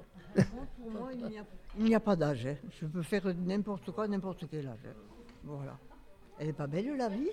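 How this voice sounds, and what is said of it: Southern French Midi accent. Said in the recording (French): “Vous avez un petit accent de l'Aveyron ou un truc comme ça ? ... De l'Hérault ? ... Avec l'accent du Midi.”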